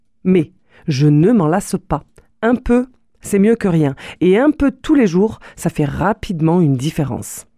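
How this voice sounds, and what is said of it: Toulouse French accent. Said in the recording (French): “avec ma voix et avec mon accent toulousain”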